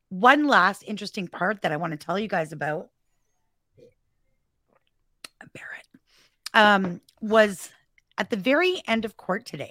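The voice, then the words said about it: Hoarse voice. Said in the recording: “I've been talking so much. I'm hoarse.”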